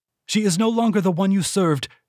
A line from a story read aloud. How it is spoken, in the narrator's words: Henley cried